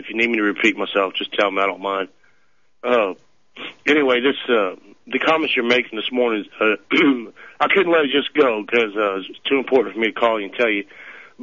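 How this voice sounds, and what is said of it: Sick, strained voice. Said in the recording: “I'm kind of sick... I apologize for my voice”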